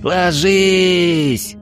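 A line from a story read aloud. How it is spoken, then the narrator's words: Yelling. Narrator (Russian): заорал Эридани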